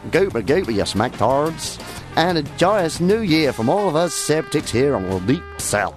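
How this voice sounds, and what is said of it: Exaggerated put-on accent. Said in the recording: “Oh, I should be doing this in a stupid accent.”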